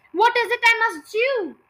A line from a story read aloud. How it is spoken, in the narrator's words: cried Mrs